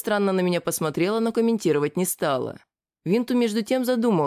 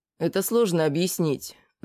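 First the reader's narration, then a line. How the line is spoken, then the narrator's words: Sighing. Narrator (Russian): вздохнул я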